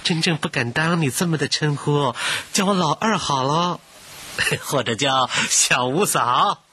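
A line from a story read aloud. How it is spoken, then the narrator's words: Uneasy laugh. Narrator (Chinese): 怡亲老二不安地笑道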